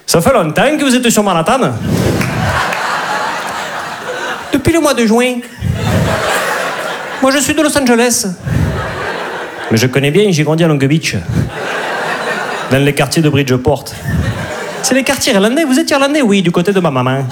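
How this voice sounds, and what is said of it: Put-on southern French Midi accent. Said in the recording (French): “T'imagines une comédie romantique à New York, avec l'accent du midi ?”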